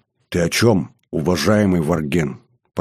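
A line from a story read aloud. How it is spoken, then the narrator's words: Whispered. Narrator (Russian): прошептал Шил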